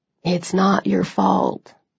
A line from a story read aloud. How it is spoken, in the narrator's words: he said softly